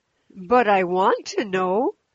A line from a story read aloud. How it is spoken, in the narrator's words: said Mrs